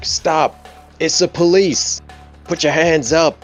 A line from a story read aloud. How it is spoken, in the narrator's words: Paul's just gonna like shout as loud as he can